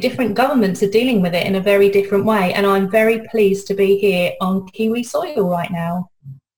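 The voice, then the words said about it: British accent. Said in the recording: “my accent, I'm British”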